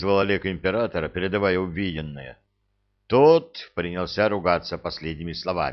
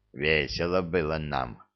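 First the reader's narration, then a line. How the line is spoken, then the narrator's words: Grumbled. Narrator (Russian): пробурчал Храд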